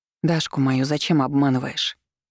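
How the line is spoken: Quiet question. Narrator (Russian): тихо поинтересовалась я

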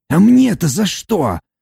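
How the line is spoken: Groaning. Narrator (Russian): простонал Фар

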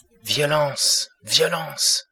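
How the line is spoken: Exclamation. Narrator (French): s'écria-t-il

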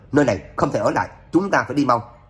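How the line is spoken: Alarmed shout. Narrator (Vietnamese): Trác Phàm mặt chợt biến sắc, hét lớn

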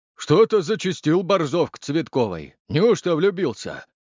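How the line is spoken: Deep bass voice. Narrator (Russian): пробасил Витя

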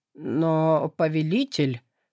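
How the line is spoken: Confused young demon. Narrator (Russian): растерянно произнес младший демон

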